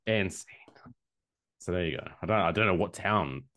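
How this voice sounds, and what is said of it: Usual voice. Nothing is said of it.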